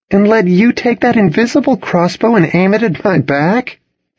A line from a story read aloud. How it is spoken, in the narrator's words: scoffed